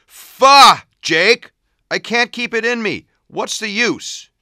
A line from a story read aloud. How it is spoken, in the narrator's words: Vinny yelled